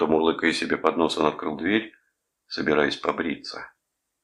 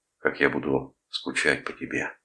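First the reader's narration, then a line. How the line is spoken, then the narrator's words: Whisper. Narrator (Russian): прошептал он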